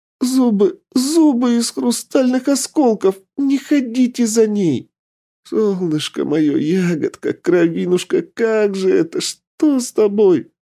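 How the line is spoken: Babbling. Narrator (Russian): Залепетала та

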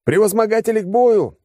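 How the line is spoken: Battle yell. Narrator (Russian): заорал я

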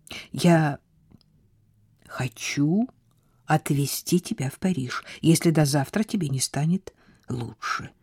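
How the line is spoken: Quiet. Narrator (Russian): тихо сказал

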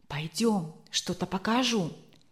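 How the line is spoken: Conspiratorial tone. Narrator (Russian): заговорческим тоном сказал

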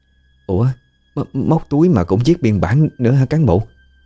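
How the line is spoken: Trembling question. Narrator (Vietnamese): Cô Dung thì vẫn chưa hết run rẩy mà hỏi lại

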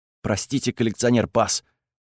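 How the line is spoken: Nervous mumble. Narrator (Russian): пробормотал Декс весь потный и бледный

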